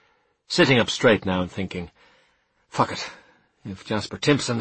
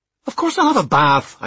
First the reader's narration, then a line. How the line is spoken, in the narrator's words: I snapped